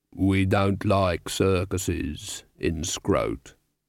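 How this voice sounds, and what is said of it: Slow, deep voice. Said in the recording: “It was a slow, deep voice.”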